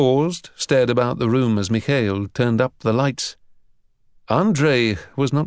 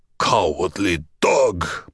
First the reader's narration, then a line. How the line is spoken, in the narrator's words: Borovitz growled